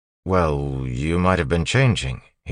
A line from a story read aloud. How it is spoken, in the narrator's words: said